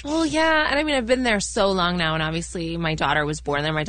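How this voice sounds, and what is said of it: Canadian accent. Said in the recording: “I still sound Canadian ... you don't lose your accent.”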